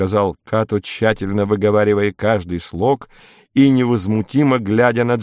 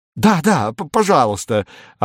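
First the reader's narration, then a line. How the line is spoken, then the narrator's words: Glad exclamation. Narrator (Russian): обрадованно воскликнул капитан третьего ранга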